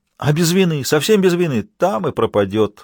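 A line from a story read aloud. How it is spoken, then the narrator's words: Exclamation. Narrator (Russian): воскликнул Ротман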